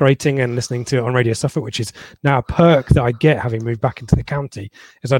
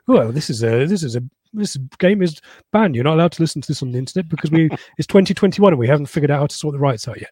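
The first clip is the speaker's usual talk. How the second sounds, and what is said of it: Imitates another person's voice. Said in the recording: “Pat Murphy's voice who says ... Like Mike Yarwood, mate, all these impressions that you're doing.”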